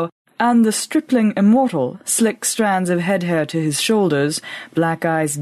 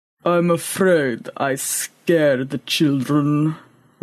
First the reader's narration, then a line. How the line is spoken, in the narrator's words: rumbled Boaz